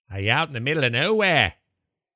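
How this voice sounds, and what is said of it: Poorly done put-on accent. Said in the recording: “That's a bad accent.”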